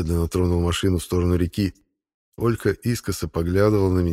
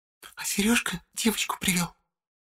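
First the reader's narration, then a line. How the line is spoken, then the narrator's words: Loud whisper. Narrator (Russian): Громким шепотом сообщила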